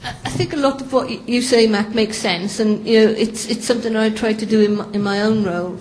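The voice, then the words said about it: Welsh accent. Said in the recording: “I'm from Wales and have a Welsh accent, so I hope you can understand me”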